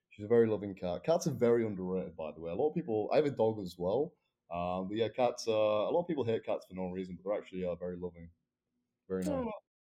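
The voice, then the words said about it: Hard-to-understand accent. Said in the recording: “I can't understand your accent.”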